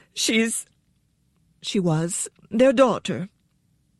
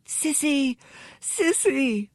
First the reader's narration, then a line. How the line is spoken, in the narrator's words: voices cried